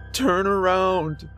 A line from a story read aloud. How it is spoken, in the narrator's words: screamed